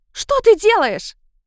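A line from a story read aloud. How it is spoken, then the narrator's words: Shrill unfamiliar voice. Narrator (Russian): Визгливый незнакомый голос летучей мышью бился в голове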